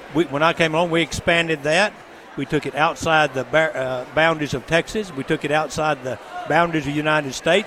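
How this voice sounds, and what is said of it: West Texas accent. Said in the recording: “this West Texas accent”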